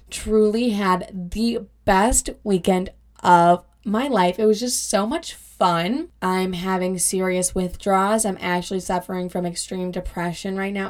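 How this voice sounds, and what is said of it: Raspy, hoarse voice. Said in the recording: “lost my voice because my best friend and I were screaming in the car lyrics to the songs, and so that's why my voice is extra raspy ... that's why I sound extra sexy today”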